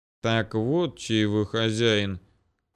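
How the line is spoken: Grumble. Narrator (Russian): пробурчал я

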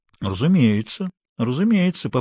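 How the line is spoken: Calm. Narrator (Russian): по-прежнему спокойно продолжал Флагерк

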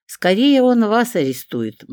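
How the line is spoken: Gloomy reply. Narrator (Russian): мрачно ответила я

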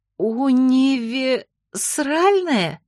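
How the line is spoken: Hoarse wheeze. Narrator (Russian): просипела

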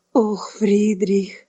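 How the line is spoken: Tired sigh. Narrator (Russian): устало вздохнул Альфред

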